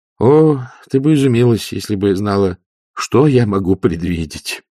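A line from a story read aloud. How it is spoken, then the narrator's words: Gloomy, dejected. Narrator (Russian): уныло сказал Ринсвинд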